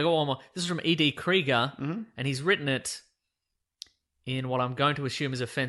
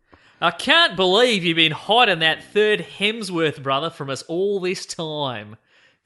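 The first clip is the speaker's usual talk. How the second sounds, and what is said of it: Put-on Australian accent. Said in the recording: “offensive Australian accent ... I'll do it in Australian accent”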